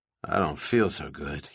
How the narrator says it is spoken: he muttered aloud

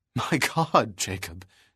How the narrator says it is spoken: finally gasped

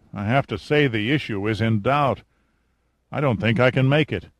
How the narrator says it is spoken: Giordino muttered

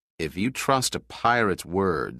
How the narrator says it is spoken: said Pitt coldly

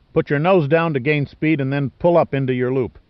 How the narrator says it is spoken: Pitt yelled

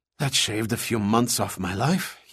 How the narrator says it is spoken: he panted

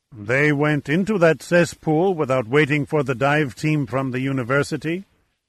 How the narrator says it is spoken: Chaco asked in a strangely indifferent tone

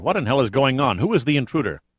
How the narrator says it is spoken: said the President sharply

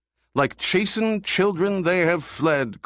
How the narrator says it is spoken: cried another

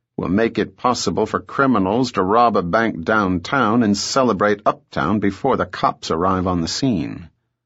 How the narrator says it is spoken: Bell observed dryly

